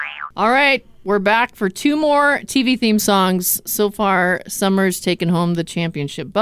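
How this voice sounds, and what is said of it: Usual voice. Nothing is said of it.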